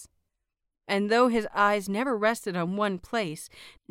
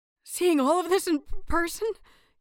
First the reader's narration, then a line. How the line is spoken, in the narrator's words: He stuttered, his voice almost drowned among the crowd